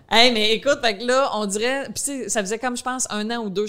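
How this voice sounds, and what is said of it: Rural country French accent. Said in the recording (French): “je sais que j'ai un accent comme, tu sais, je viens de la campagne. fait que je sais que des fois, quand je parle, on comprend pas tout”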